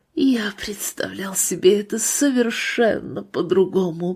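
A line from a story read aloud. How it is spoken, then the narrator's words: Dying man's whisper. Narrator (Russian): прошептал умирающий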